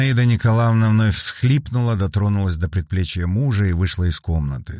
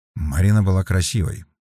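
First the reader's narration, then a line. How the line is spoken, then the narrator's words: Quiet. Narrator (Russian): негромко сказал Вербин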